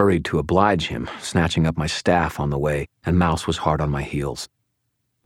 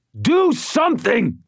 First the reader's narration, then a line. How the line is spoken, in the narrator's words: Thomas shouted